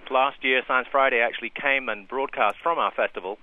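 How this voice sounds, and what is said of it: British accent. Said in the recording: “considering your accent ... I'm a Brit”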